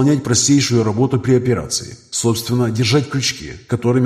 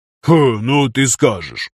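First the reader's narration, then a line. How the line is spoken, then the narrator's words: Snorting. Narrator (Russian): фыркнул Зимников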